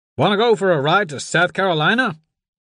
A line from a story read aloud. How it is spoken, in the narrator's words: yelled over the engine